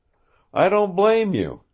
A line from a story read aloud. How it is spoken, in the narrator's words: he exclaimed